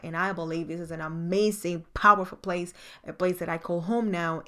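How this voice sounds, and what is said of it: Slight island accent. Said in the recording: “you can hear a little bit of an accent is because I'm an island girl”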